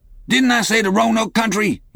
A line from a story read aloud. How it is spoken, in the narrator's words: he cried sharply